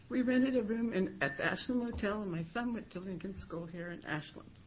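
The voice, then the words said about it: Emotional voice. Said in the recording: “Sorry, I'm getting emotional.”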